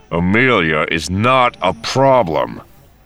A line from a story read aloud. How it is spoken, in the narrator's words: Han said through gritted teeth